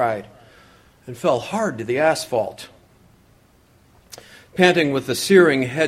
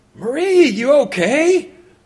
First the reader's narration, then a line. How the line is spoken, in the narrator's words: yelled, kindly neighbor